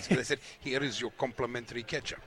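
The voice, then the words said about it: Put-on Russian accent. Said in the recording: “Do you like my Russian accent? ... That's very good, ... it's really coming on.”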